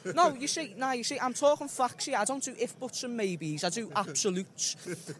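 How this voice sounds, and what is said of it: Deep British regional accent. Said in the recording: “What is that, Liverpool? What is that accent? ... it's a deep...”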